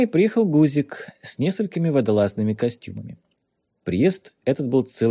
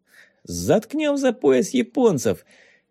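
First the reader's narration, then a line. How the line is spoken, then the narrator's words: Cheerful. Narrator (Russian): весело сказал Ванюшка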